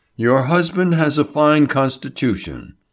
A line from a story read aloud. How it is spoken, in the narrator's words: he said soothingly